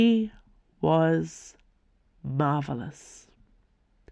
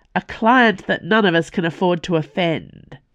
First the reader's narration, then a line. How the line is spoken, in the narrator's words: snapped back, struggling